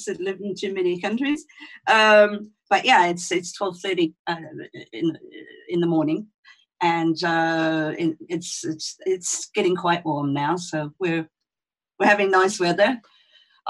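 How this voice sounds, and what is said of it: Mixed international accent, not Australian. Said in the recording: “I don't sound like an Aussie. I've got one of those international kid accents”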